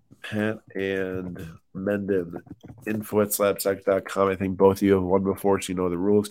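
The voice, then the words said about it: Whispering, stuffy congested voice. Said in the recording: “whispering ... Sorry about sounding stuffy.”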